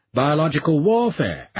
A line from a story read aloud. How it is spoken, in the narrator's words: Ashley suggested in a grieved tone